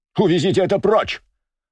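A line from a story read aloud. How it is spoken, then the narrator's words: Startled shout. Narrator (Russian): закричал Туров, подскочив с места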